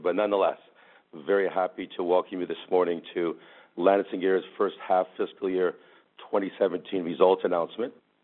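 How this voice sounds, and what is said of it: Voice affected by a cold. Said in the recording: “I'm finding a little bit of a cold here, so my voice is a little bit affected”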